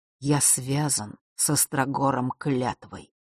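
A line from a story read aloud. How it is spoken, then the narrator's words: Muffled, hollow voice. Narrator (Russian): глухо произнес отец Василисы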